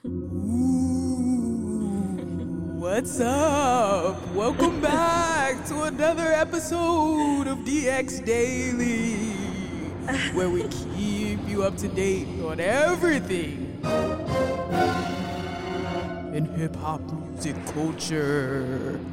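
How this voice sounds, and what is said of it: Spooky voice. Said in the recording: “let me do my spooky voice ... How was my spooky voice? ... I'm getting scared, girl.”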